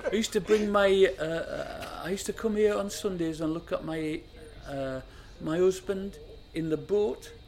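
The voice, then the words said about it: Poorly put-on old lady's accent. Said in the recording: “that's a terrible accent. Forgive me. ... I'm going to stop doing the accent now.”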